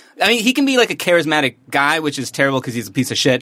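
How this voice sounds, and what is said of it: Usual voice. Nothing is said of it.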